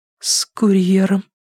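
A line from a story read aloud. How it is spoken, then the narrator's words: Forced out. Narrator (Russian): выдавила она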